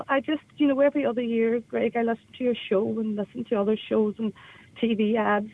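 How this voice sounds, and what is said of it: Emotional voice. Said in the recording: “I'm a wee bit emotional”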